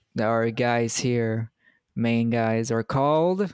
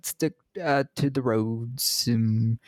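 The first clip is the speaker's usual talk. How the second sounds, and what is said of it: Put-on British accent. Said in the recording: “My best British accent.”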